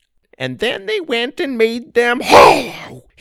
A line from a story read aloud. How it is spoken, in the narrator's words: he screamed